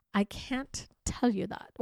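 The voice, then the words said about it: Upper-crust British accent. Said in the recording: “he replies in a strange British accent ... a little bit all upper crust ... I have to do an accent”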